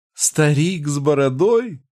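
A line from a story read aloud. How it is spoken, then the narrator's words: Through laughter. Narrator (Russian): проговорила она сквозь смех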